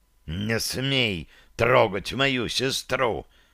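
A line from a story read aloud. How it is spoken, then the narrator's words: Barely restrained hiss. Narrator (Russian): прошипел он, едва сдерживаясь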